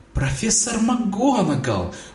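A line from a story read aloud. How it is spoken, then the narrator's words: Exclaimed. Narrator (Russian): воскликнул Драко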